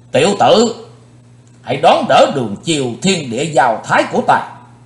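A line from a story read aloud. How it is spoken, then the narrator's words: Shout. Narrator (Vietnamese): Hét dứt lời, Phạm Thiên Hoa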